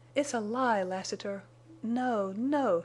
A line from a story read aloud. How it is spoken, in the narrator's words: she moaned